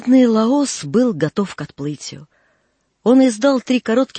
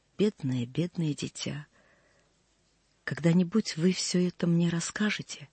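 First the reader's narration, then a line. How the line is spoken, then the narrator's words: Quiet, tender. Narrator (Russian): тихо сказал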